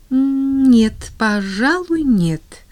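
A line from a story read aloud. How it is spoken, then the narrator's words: Uncertain reply. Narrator (Russian): неуверенно ответила Полианна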